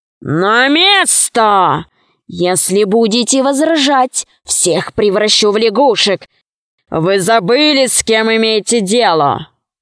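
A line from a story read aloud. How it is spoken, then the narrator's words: Menacing. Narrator (Russian): так грозно произнес эти слова, что бабушка испугалась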